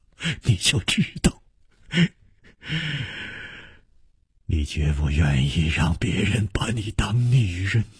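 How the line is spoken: Smiling. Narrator (Chinese): 楚留香笑着说

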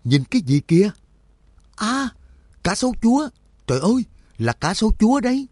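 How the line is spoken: Shouting loudly. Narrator (Vietnamese): Nhạc Dương cùng lúc hét toáng lên

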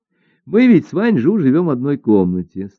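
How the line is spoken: Laughing while telling. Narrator (Russian): стала рассказывать Жо Хуа, продолжая смеяться

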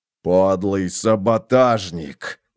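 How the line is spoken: Growling. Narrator (Russian): прорычал фон Вольген

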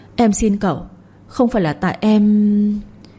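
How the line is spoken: Trembling stammer. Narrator (Vietnamese): run rẩy, miệng lắp bắp

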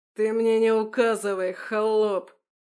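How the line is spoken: Roaring. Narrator (Russian): взревел чиновник

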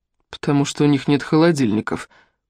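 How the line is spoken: Muttered. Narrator (Russian): пробормотал Финн

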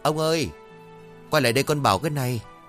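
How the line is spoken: Sighing woman calling. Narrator (Vietnamese): Người phụ nữ thở dài một tiếng đoạn gọi

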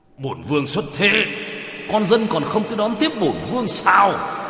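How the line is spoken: Sudden angry shout. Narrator (Vietnamese): Hắn … chợt giận dữ hét lên

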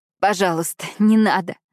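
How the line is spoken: Forced out with effort. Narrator (Russian): выдавила я из себя

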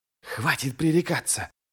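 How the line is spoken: Hissed. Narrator (Russian): прошипел Ярви

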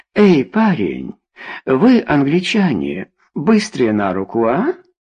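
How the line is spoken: Booming laugh. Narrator (Russian): Она рассмеялась раскатисто

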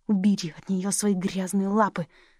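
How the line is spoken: Hissed. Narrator (Russian): прошипел Кент

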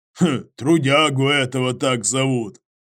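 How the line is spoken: Snort. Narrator (Russian): хмыкнул Иваныч

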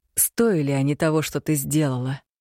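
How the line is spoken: Insinuating question. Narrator (Russian): вкрадчиво спросил я

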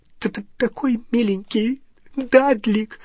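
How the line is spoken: Sobbing. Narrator (Russian): всхлипывала она

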